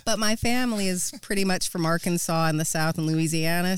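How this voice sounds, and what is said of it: Slight American drawl. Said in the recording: “you have a slight accent ... so I gather that's an American drawl I can hear”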